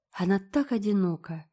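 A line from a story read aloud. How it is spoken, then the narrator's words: Soft. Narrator (Russian): заметила Диана мягко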